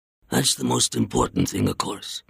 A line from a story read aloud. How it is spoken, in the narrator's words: murmured